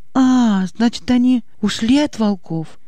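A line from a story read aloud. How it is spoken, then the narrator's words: Lively exclamation. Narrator (Russian): оживленно воскликнула Аня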